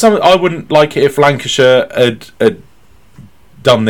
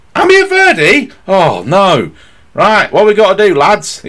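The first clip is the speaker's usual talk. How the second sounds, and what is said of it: Put-on Lancastrian accent. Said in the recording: “This is my best Lancastrian accent”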